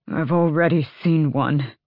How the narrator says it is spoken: Adian grunted

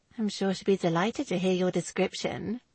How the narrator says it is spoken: Lizzie murmured, her eyes alive with amusement

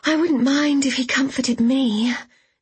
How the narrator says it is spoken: said Vanessa wistfully

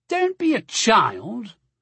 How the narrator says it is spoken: the big one scoffed

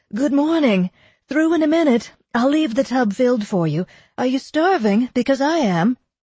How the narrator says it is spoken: Eleanor called

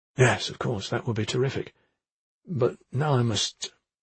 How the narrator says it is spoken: Baldur mumbled, without knowing what he wanted to say

